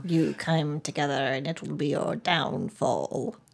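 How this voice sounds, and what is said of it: Sinister movie villain voice. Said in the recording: “it was like the Wicked Witch of the West came in... my best Emperor impression”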